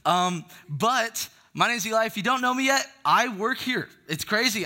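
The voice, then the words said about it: Loud, yelling voice. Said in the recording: “sorry, I'm yelling. I like to talk loud.”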